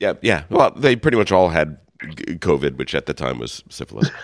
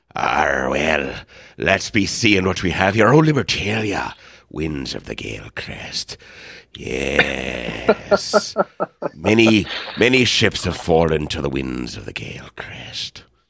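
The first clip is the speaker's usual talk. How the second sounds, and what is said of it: Sick-sounding pirate character voice. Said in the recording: “can you do your pirate voice? ... In my current state? ... That's what a pirate with COVID sounds like. You nailed it.”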